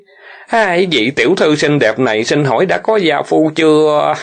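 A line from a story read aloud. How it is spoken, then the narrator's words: Loud laughing speech. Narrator (Vietnamese): Kinh Tuấn ha ha cười lớn, quay sang Triệu Thiên nói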